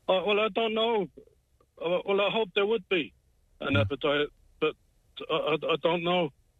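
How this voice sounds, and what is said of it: British accent. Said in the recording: “can I tell from your accent, have you a UK background”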